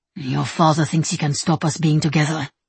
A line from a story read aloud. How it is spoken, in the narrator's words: he murmurs